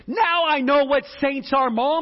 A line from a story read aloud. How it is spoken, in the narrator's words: When the little girl saw this, she shouted loudly